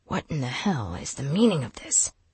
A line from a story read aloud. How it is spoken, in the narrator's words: she hissed at Knox